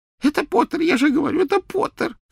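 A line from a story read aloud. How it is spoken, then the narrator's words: Sobbing. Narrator (Russian): всхлипывал Ксенофилиус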